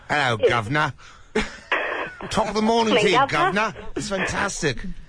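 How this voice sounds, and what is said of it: Put-on British accent. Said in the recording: “You've got a very good British accent going.”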